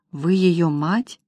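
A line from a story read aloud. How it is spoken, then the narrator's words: Boy's whisper. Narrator (Russian): Мальчишка прошептал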